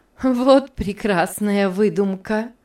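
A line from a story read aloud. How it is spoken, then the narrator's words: Laughing exclamation. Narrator (Russian): воскликнула Мари, смеясь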